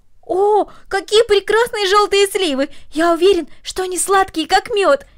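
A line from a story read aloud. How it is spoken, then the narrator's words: Exclaimed. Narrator (Russian): воскликнул Дино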